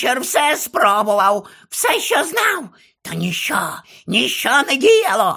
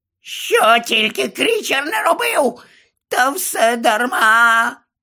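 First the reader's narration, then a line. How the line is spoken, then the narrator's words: Groaning. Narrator (Ukrainian): Ельф аж застогнав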